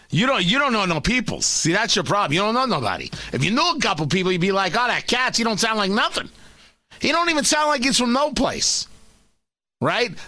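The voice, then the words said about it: Put-on New York accent. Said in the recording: “my official uh, uh scumbag New Yorker voice ... That's an accent.”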